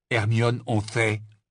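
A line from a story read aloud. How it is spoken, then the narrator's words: Stern interruption. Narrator (French): l'interrompit Ron d'un ton sévère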